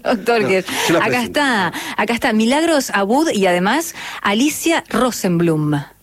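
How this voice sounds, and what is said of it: Professional radio announcer voice. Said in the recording (Spanish): “tiene voz de locutora ... es locutora”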